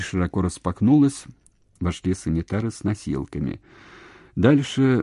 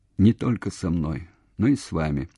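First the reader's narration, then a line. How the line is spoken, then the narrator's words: Even-toned addition. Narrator (Russian): ровным голосом добавил Евгений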